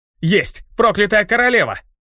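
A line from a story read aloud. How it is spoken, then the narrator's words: Joyful shout. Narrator (Russian): Радостно выкрикнул, наконец, один из них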